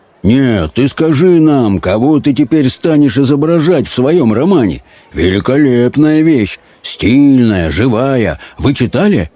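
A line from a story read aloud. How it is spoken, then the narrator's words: Serious deep booming voice. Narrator (Russian): Воронов принял тотчас серьезный вид … и забасил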